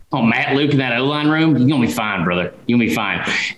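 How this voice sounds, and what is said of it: Imitates another person's voice. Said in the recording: “best Matt Luke impersonation you've ever heard”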